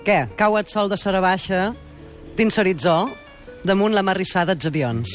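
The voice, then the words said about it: Mallorcan Manacor accent. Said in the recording (Catalan): “Amb accent de Manacó.”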